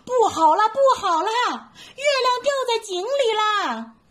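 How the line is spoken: Frightened loud shout. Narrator (Chinese): 大猴子也吓得大声叫起来

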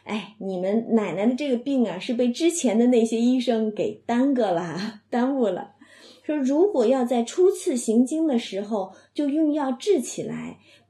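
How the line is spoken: Gentleman laughing. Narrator (Chinese): 这个先生就笑嘛，他就笑说

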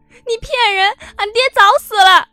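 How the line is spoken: Agitated crying shout. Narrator (Chinese): 楼顶上的菜花花却更加激动地哭喊了起来

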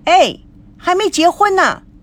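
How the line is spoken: Loud shout. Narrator (Chinese): 孙娜、赵熙大喊

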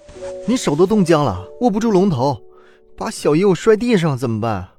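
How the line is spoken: Sighing. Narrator (Chinese): 陆杭州叹了口气

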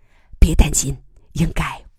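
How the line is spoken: Low comforting voice. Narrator (Chinese): 姬仁瑞低声安慰小鱼

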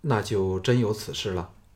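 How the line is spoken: Calm, flat. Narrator (Chinese): 项少龙淡淡的说

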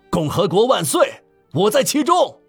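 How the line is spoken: Loud shout. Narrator (Chinese): 有人大声喊道

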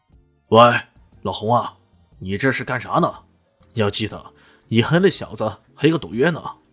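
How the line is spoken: Loud shout. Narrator (Chinese): 他忍不住大声吼道

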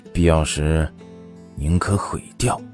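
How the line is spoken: Lower, deeper voice. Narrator (Chinese): 声音低沉了几分

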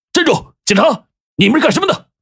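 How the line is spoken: Sudden shout. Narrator (Chinese): 有人大喊一声

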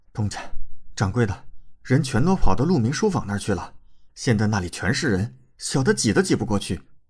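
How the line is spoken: Panting heavily. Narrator (Chinese): 那家伙喘了一口粗气道

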